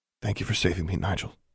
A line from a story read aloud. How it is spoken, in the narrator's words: she whispered